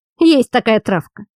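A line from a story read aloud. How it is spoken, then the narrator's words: Displeased grumble. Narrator (Russian): недовольно пробурчал Белу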